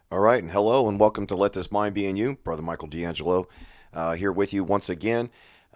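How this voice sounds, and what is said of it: Hoarse, strained voice. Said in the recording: “As you can probably tell from my voice, ... I'm still struggling with losing my voice.”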